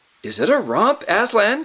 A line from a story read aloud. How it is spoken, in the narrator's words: cried the youth